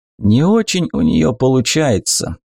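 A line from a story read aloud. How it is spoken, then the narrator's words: Sigh. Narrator (Russian): вздохнул Дубок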